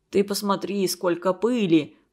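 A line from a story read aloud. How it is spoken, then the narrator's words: Grumbling. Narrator (Russian): проворчал он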